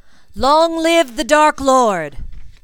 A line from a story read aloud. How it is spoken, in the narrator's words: a Death Eater cried